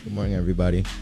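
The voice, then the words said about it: Unusually deep voice. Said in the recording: “What is that deep voice?”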